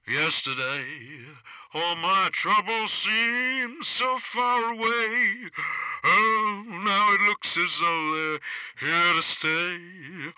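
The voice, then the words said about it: Elvis Presley impression, singing. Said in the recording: “my impression of Elvis. Elvis Presley”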